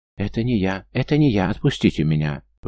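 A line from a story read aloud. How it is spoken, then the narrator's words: Screaming accomplice. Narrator (Russian): вопил бестолковый подельник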